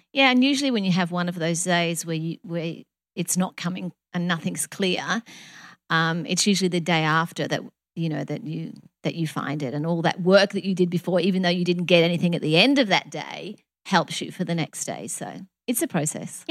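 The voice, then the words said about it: Pretty, distinctive accent. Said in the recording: “We say that word so different, process. ... I like your accent much better. ... It's so, so pretty.”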